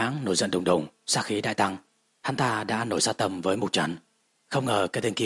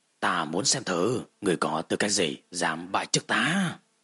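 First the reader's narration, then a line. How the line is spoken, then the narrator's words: Fierce serpent hiss. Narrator (Vietnamese): Cự mãng hắc ám đáng sợ, vang ra một tiếng rít dữ tợn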